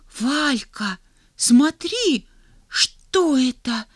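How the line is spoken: Girl's whispered exclamation. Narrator (Russian): шепотом вскрикнула девочка

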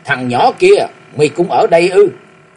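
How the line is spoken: Loud shout. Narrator (Vietnamese): Tiếng quát nghe nhất tai vừa vọng lại

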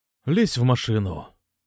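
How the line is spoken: Tired repeat with sigh. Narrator (Russian): повторил чувак и устало вздохнул

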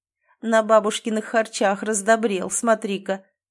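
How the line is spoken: Chuckling neighbor. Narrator (Russian): хохотнул сосед Крашенинников

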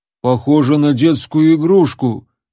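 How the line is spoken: Deep bass voice. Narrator (Russian): пробасил мускулистый громила

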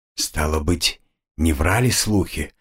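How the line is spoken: Relieved exhale. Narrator (Russian): с облегчением выдохнул маг

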